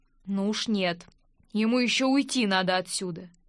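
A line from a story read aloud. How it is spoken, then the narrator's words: Grim words through teeth. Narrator (Russian): Айрон мрачно процедил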